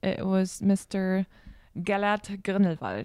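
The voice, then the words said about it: Put-on German accent. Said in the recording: “In my perfect German accent.”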